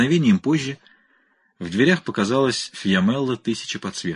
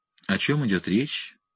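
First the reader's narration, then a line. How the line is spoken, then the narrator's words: Gentle melodic voice. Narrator (Russian): спросила Фьямелла нежным мелодичным голосом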